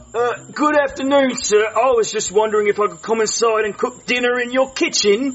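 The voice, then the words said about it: British accent. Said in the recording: “I love your accent. ... The UK.”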